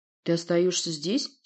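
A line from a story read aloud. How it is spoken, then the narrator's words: Angry question. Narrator (Russian): сердито уточнил я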